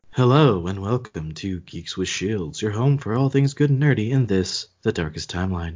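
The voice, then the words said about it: Mock NPR radio announcer voice. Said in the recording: “kind of creeped out by the NPR voice”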